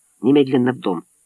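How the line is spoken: Quiet command. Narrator (Russian): Мэтт тихо велел

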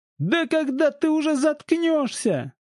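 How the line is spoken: Hoarse shrieking. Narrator (Russian): срывая голос, визжал второй пленник

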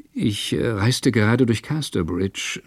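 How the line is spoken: Deferential stammering. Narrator (German): sagte er, und er stammelte vor Ehrerbietung

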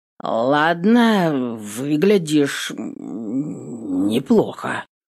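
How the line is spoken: Muffled hoarse rasp. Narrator (Russian): глухо хрипит

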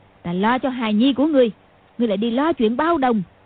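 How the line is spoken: Shouting. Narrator (Vietnamese): Lý Mạc Sầu quát lên

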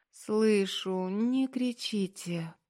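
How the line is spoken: Moaning. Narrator (Russian): простонала Аня

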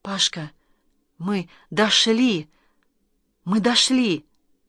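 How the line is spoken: Breathless joyful whisper. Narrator (Russian): задыхаясь от радости, прошептал

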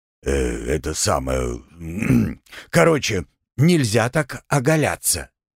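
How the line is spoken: Hoarse, breaking voice. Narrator (Russian): Все тем же хриплым, срывающимся голосом ответил Оренгил

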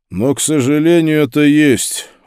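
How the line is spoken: Tired voice. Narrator (Russian): устало сказал Пауль

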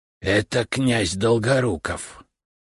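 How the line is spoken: Hissing whisper. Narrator (Russian): свистящим шепотом ответил Рябушинский

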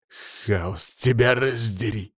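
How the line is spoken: Growled. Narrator (Russian): прорычал

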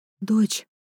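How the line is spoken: Quiet. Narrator (Russian): так же тихо говорю

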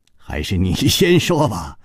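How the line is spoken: Smiling. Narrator (Chinese): 楚留香笑着说

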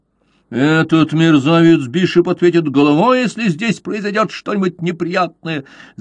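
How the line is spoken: Growling. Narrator (Russian): зарычал Уиллоби

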